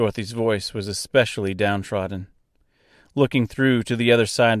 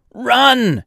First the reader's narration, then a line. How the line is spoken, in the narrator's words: he screamed as the floor beneath them gave way